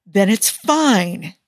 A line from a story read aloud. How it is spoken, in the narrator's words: Tony exclaims